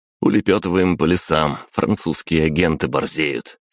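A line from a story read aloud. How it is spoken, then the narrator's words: Calm reply. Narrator (Russian): спокойно ответил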